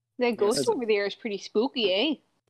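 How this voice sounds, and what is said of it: Put-on Minnesotan accent. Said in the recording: “That was a very convincing accent. ... I know Minnesotan accent pretty well.”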